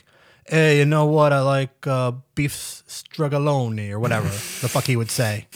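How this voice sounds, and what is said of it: Imitates a foreign-sounding man's voice. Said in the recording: “his voice is very like he. You can tell he's like a different ethnicity that's not American”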